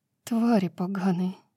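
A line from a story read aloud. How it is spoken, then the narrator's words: Whispered. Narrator (Russian): прошептала Брайс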